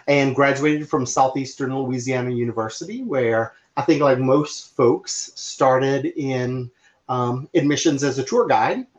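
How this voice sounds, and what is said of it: New Orleans accent. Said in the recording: “born and raised in New Orleans from my accent”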